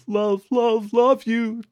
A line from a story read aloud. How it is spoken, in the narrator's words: Cooper just whined